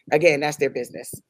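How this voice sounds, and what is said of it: Imitates another person's voice. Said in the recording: “in my AJ voice.”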